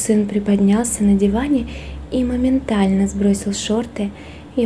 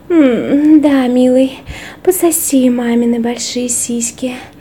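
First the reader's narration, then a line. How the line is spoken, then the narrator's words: Breathy exhale. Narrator (Russian): выдохнула она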